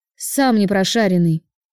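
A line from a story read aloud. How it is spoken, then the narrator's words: Grumbling mutter. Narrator (Russian): буркнула девушка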